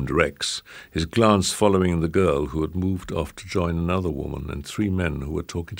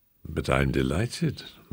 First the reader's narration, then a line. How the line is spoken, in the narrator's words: murmured Simon genially